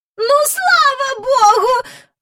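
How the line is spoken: Exclaiming with loud sigh. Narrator (Ukrainian): вигукнула міс Жайворон і голосно зітхнула

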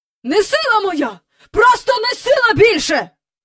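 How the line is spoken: Angry shouting. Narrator (Ukrainian): кричав містер Бенкс, сердито бігаючи

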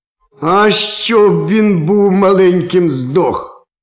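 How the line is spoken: Angry rich man spitting. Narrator (Ukrainian): сплюнув сердито багач

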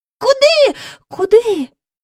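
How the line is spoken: Two voices crying out. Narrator (Ukrainian): скрикнули разом Джейн і Майкл

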